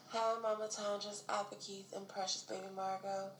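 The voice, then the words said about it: Raspy, hoarse sick voice. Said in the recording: “my voice sounds a little weird or raspy or sex operator-ish ... I'm currently under the weather”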